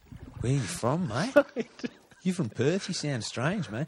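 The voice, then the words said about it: Put-on Sydney Australian accent. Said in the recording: “This is a Sydney accent, in case anyone's wondering about the particular Australian accent ... I've chosen.”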